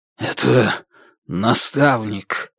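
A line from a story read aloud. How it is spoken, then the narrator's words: Strangled voice. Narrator (Russian): Сдавленным голосом он произнес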